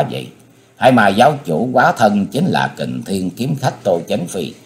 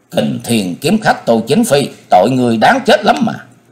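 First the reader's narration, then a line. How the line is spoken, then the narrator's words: Thunderous roar. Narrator (Vietnamese): miệng chàng gầm lên như bầu trời tung nổ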